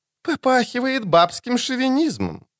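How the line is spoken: Sarcastic remark. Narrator (Russian): язвительно бросила Сабрина Глявиссик

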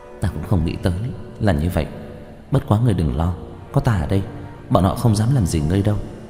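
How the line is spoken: Lowered voice. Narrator (Vietnamese): Tiểu Cửu hạ giọng

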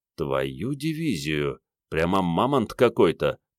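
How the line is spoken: Muttered. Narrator (Russian): пробормотал Генка

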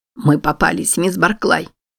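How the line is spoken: Terrified mutter. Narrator (Russian): в ужасе пробормотала женщина

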